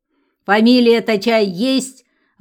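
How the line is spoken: Sudden angry grumble. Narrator (Russian): вдруг сердито пробурчала она

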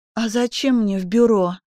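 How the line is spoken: Hoarse question. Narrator (Russian): спросила София осипшим голосом

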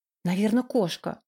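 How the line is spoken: Whisper. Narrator (Russian): прошептала она

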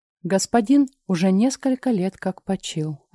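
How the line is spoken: Even, respectful. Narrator (Russian): ответил он ровным, почтительным голосом

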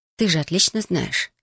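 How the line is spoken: Calm reply. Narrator (Russian): спокойно ответила ей

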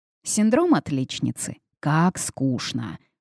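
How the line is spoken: Drawling, thoughtful. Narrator (Russian): протянула Лили, задумчиво

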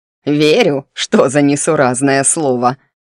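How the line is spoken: Snorting hag. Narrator (Russian): фыркнула меж тем корга

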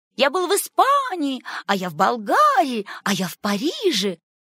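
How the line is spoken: Overlapping joyful shouts. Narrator (Russian): И все наперебой радостно закричали

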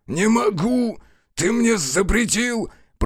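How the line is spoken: Groaning. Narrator (Russian): простонал метаморф

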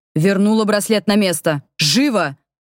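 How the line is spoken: Menacing male voice. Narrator (Russian): грозный голос рядом стоящего мужчины

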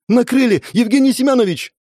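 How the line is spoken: Joyful shout. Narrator (Russian): Радостно закричала она

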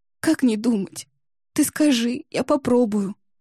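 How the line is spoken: Pitiful drawl, quiet sobbing. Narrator (Russian): жалостливо тянула Ксюша, тихонечко всхлипывая

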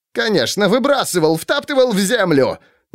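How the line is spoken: Rapid indignant chatter. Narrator (Russian): затараторил он возмущенно

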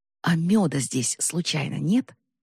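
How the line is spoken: Whispered. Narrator (Russian): прошептала она

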